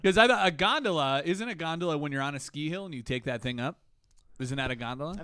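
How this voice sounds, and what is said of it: Midwestern US accent, Canadian-sounding. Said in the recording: “everyone says I have a Midwest accent, but it's like Canadian. ... It is. It's weird.”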